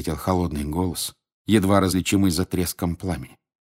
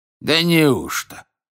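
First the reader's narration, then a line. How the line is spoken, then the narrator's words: Irreverent exclamation. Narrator (Russian): воскликнул Фрэнк без всякого почтения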